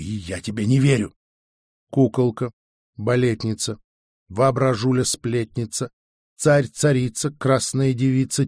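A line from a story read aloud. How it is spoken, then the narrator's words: Quiet counting rhyme. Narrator (Russian): тихо произнес я детскую считалку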